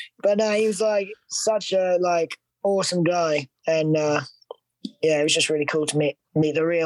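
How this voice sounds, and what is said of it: Usual voice. Nothing is said of it.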